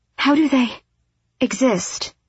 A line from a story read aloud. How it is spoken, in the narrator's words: Aleed breathed